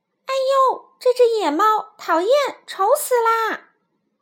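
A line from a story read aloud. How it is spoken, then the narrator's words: Disgusted exclamation. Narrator (Chinese): 他一看到我就叫了起来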